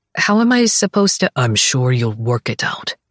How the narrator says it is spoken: he mutters

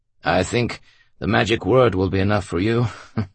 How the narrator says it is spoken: the officer chuckled

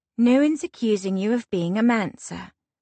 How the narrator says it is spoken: say soothingly

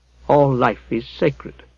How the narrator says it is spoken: said Alfred softly

